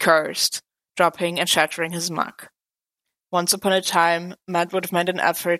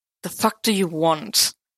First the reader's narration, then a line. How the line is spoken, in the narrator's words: Clint growled